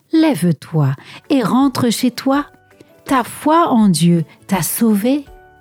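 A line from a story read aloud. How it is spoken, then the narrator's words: Friendly voice. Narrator (French): lui dit d'une voix amicale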